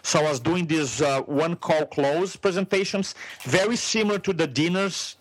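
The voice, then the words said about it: Brazilian Portuguese accent in English. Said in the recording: “you have this accent... English is my third language. I went to school in Brazil, in Portuguese. My second language is Spanish.”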